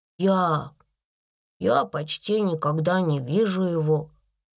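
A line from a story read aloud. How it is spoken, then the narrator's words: Mumbled. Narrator (Russian): пробормотала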